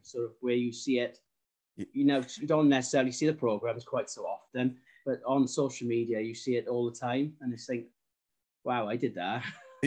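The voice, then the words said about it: South Wales valleys accent. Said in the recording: “your accent seems a bit different than most Welsh ... It's South Wales, but it's more of a valley's accent ... I'm catching something in there ... it's not quite sort of a Cardiff accent, and it's not sort of really Welsh, it's sort of a bit in between”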